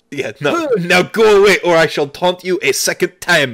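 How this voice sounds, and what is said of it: Exaggerated bad French accent. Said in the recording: “outrageous French accents ... the bad French accent”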